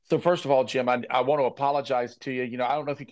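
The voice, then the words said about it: Slightly hoarse voice. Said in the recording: “hear in my voice. I'm a little hoarse”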